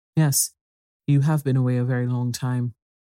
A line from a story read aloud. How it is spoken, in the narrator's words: he answered somewhat stiffly